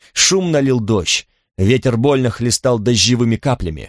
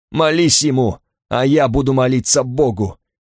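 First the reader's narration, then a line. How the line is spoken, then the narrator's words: Guffawing. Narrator (Russian): Я захохотал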